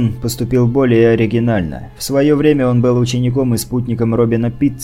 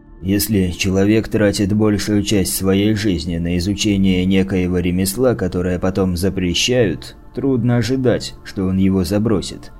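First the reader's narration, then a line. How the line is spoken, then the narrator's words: Muttering to himself. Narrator (Russian): пробормотал, словно бы про себя, Кастер Дитул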